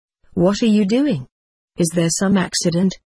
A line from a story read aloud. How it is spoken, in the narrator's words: Dave asked